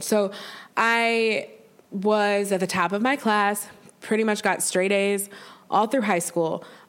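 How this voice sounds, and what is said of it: Congested, sick-sounding voice. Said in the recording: “I'm sorry, I have a cold.”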